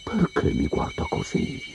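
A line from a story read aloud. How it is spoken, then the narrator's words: Whispered question. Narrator (Italian): chiese in un sussurro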